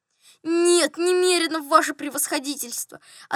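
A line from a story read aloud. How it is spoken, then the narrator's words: Guilty sighing reply. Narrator (Russian): ответил Иван Евсеич, виновато вздохнул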